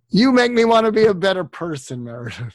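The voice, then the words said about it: Imitates another person's voice. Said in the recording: “my Jack Nicholson impersonation”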